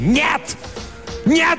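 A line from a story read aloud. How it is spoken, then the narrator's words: Shouting. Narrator (Russian): закричал Перин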